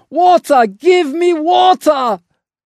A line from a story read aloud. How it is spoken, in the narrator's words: burning with fever, shouted impatiently